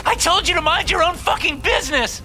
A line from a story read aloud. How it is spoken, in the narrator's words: She screams